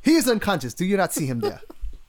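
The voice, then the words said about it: Put-on Nigerian accent. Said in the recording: “I always go with the Nigerian accent when I go African.”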